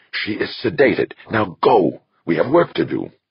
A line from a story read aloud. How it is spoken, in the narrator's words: Pohan hissed